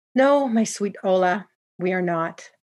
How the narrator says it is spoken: replied with a heavy sigh

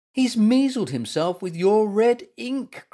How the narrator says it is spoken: cried Gumper

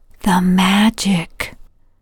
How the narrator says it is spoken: Amanda whispers

